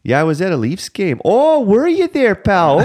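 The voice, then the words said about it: Put-on Canadian accent. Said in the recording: “they just do like a flawless Canadian accent”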